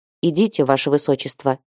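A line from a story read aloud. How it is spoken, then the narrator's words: Quiet male voice. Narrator (Russian): тихо произнес один из мужчин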